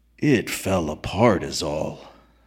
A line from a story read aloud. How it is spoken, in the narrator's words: said McDunn gravely